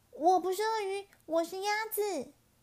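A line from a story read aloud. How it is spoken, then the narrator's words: Loud shout. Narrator (Chinese): 咕叽咕叽大叫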